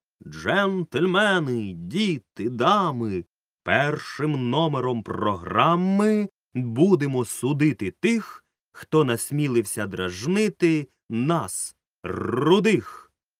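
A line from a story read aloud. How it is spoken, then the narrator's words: Loud circus announcer voice. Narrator (Ukrainian): Гучним цирковим голосом Рудольфо виголосив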